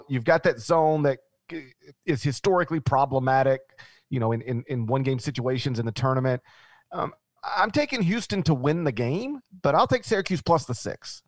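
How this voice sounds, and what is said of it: Memphis Southern American accent. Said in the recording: “your Memphis accent goes Syracuse ... It's just your accent, man. Tulane.”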